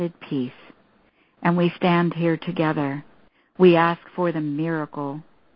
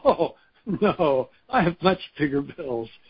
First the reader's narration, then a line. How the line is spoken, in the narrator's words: Bob laughingly said